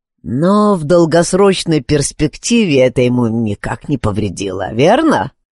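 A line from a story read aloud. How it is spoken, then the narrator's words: Grumbled. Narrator (Russian): проворчал Стаут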